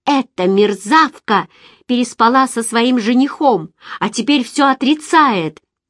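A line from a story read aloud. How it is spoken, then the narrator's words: Shouting mother. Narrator (Russian): закричала мама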